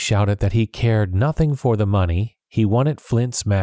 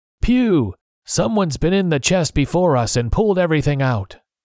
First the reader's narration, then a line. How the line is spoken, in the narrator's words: a man leaned out the window and shouted